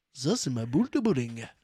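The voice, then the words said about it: Imitates another person's voice. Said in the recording (French): “Avec l'accent de Franck Dubosc ... meilleure imitation du monde”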